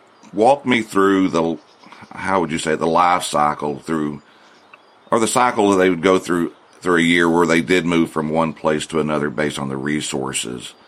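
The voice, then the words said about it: North Texas country accent. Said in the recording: “that's my North Texas country boy voice right there”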